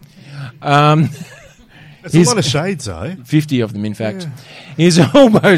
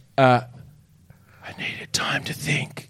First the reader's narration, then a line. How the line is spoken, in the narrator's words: he whispers